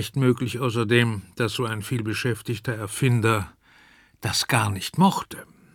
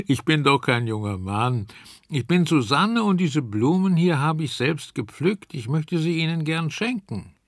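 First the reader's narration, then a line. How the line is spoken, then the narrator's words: Laughing. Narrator (German): lachte Susanne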